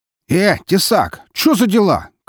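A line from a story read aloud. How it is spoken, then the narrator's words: Shout. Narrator (Russian): крикнул один из них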